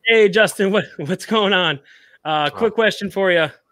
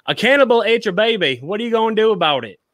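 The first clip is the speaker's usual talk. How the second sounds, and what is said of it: Poor put-on Australian accent. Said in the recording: “I'm going to try and do this in my terrible Australian accent.”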